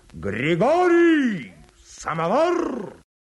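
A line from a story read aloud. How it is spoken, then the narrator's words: Shouting at the top of voice. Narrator (Russian): в коридоре кто-то кричал во все горло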